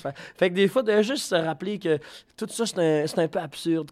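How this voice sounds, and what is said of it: Quebec French accent. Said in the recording (French): “cet artiste québécois ... c'est ton accent”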